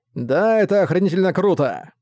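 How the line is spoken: Loud hoarse laughter. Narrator (Russian): Хриплый голос громко рассмеялся

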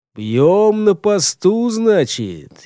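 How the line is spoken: Sarcastic drawl, under breath. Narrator (Russian): язвительно протянул про себя Гортер

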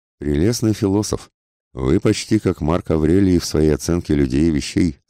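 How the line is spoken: Plain. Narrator (Russian): сказал он

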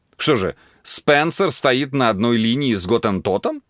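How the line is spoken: Laughing. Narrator (Russian): засмеялся Дархиал

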